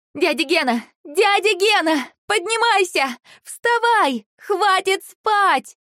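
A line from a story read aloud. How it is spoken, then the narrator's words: Loud shouting. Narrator (Russian): громко кричала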